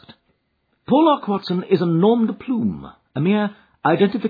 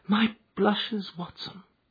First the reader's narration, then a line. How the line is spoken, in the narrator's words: Holmes murmured in a deprecating voice